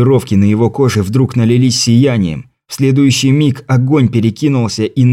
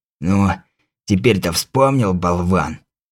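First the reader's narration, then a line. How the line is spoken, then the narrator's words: Hoarse rasp. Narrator (Russian): прохрипел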